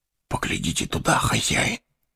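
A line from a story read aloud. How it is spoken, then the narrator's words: Whispered. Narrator (Russian): шепнул он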